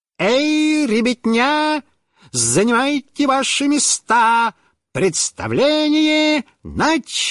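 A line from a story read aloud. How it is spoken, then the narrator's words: Exaggerated circus voice. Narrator (Russian): сказал нарочным цирковым голосом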